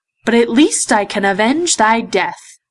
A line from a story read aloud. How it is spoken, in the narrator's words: cried